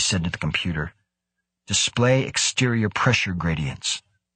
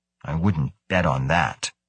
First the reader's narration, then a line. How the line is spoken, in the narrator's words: Carlston grumbled